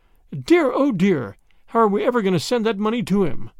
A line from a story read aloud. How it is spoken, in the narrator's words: she exclaimed